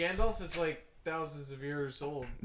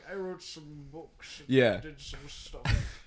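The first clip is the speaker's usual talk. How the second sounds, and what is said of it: Dumbledore impression. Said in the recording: “That's a great Dumbledore impression.”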